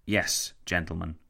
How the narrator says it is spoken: Lloyd George replied

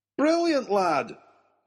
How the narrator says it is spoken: cried the professor

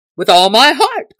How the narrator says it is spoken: cried merry Robin

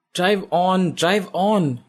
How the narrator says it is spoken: Isha shouts at her driver

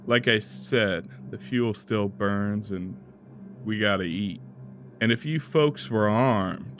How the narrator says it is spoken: After a satisfied sigh, saying

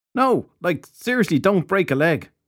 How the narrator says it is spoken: Filthy Henry shouted after him

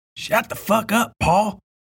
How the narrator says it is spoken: Donna hissed

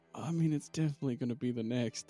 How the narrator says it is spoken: Crinched under his breath says

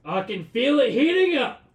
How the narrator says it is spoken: he yells

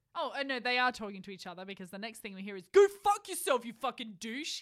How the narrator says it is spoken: he shouted at him

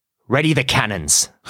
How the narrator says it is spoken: Barbossa snarls

